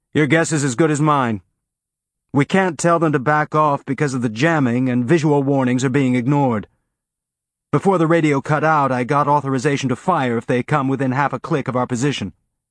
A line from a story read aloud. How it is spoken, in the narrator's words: irritated look and yelled